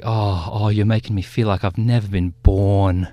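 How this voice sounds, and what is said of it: Good put-on Liverpudlian accent. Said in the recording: “That's a great accent. ... That's a good accent. ... Very good Liverpudlian”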